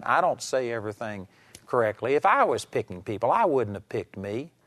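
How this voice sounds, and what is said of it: Texas accent. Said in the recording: “I've got a Texas accent.”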